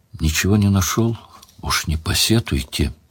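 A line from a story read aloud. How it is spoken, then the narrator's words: Quiet, apologetic. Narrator (Russian): виновато тихо сказал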